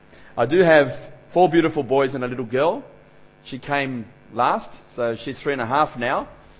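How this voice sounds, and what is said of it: Australian English accent. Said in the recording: “if you're not used to an Australian accent”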